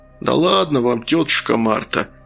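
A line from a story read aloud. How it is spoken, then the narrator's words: Grumbled. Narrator (Russian): пробурчал следователь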